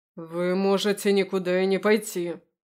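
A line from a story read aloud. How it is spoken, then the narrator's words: Snapping retort. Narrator (Russian): огрызнулся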